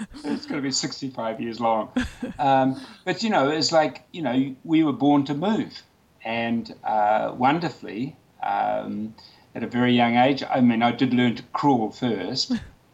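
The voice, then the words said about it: New Zealand accent. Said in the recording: “your fabulous Kiwi accent”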